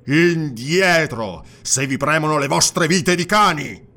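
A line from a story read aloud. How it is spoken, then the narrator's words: Snarl. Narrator (Italian): ringhiò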